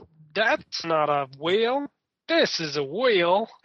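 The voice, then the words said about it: Attempted Australian accent. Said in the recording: “with obviously with an Australian accent instead of whatever I just did”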